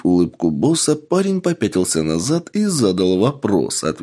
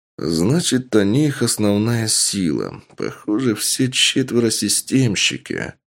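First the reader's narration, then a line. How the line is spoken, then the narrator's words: Muttered, man. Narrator (Russian): пробормотал мужчина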